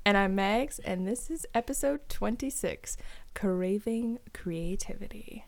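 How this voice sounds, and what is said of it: Public radio announcer voice. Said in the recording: “my own NPR voice”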